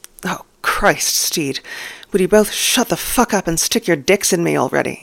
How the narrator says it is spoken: snaps, though it's hard to sound properly annoyed with his hips rocking desperately

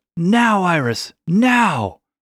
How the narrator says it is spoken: Tukin yelled out

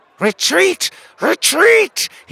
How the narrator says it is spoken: shrieked

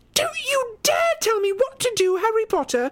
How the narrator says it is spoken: She screeched

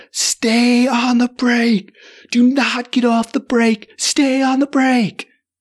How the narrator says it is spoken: he shouts down to the mouse on the floor

